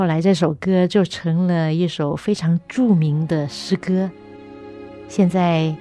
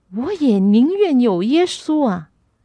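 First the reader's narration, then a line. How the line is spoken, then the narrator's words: Loud voice. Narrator (Chinese): 英王就大声的说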